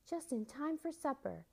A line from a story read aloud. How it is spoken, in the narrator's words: she cried to the children